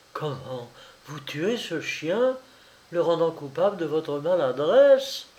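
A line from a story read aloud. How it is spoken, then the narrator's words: Startled exclamation. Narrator (French): s'écria-t-elle un peu saisie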